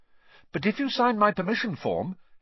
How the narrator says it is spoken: Harry went on quickly

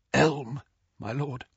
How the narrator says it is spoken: whispered Malfoy

